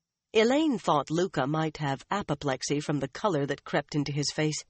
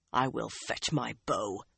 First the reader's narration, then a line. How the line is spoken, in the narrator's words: he almost hissed